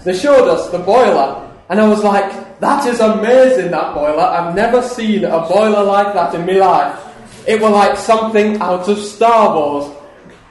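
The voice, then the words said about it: Put-on South Yorkshire accent, done badly. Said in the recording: “my very bad South Yorkshire accent”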